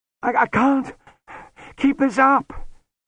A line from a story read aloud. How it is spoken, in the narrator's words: he panted, running after Lutzer in a violent gloom